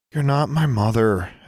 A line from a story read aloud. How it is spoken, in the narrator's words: Alexandra sighed, with a mixture of affection and exasperation